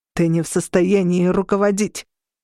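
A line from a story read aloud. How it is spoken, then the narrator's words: Growling. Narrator (Russian): прорычал другой дразири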